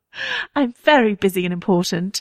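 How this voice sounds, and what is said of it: British accent, Renee Zellweger's Bridget Jones. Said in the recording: “what's like a 2004 British accent? ... like Renee Zellweger doing Bridget Jones”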